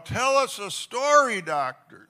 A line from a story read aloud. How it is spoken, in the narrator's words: scream right out loud